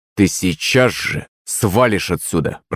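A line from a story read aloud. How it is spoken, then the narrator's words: Through clenched teeth. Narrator (Russian): процедил я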